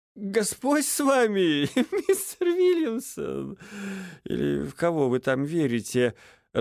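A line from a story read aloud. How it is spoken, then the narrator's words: Laughing. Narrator (Russian): рассмеялся Эдельхейд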